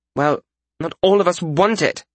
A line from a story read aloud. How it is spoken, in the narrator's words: Frisha snapped